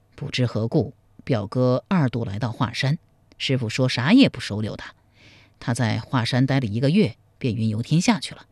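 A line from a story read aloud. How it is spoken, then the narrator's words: Heavy sigh. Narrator (Chinese): 苗逊长叹一声说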